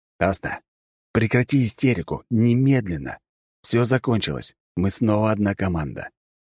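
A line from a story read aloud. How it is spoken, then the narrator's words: Quiet but clear. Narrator (Russian): И негромко, но внятно произнес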